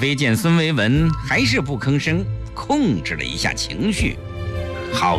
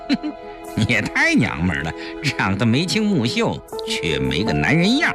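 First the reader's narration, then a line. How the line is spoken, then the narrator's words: Mocking, smiling. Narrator (Chinese): 顾青面带嘲讽的微笑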